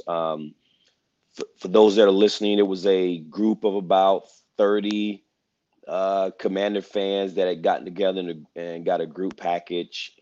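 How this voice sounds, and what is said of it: Slightly hoarse voice. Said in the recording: “my voice is a little bit hoarse ... We was yelling and screaming and cheering”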